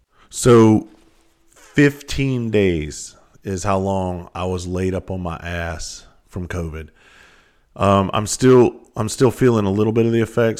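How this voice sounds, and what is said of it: Hoarse, raspy voice. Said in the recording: “My voice is still a little bit, sounds like I've been smoking Newports for a couple of weeks straight and gargling rocks at the same time.”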